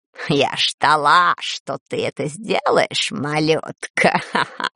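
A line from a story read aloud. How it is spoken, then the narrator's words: Amused snort. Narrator (Russian): хмыкнула она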